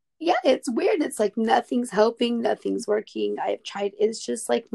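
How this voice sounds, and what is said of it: Strained, nearly lost voice. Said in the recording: “thank your little voice in there for making it through ... my voice is just kaput ... I have no voice”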